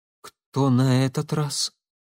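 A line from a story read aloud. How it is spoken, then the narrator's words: Trembling-voiced question. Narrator (Russian): дрогнувшим голосом спросила Алекса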